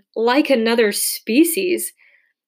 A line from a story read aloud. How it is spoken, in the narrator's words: Kevin exclaimed